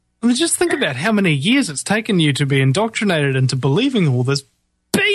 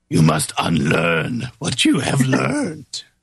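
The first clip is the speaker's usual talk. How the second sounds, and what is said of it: Yoda impression. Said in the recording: “Yoda said ... You do a great impersonation.”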